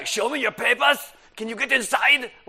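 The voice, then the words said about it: Put-on angry German accent. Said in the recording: “I guess all Germans sound angry. That's my German accent.”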